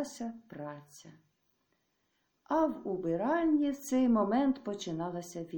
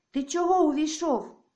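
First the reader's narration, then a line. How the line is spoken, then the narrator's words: Shout. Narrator (Ukrainian): крикнула на Тараса Марта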